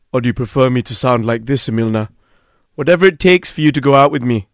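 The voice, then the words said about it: Put-on deeper, more macho voice. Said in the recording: “put on a different voice ... Do I sound more macho now?”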